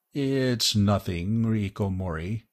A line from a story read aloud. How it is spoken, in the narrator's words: Bart mumbled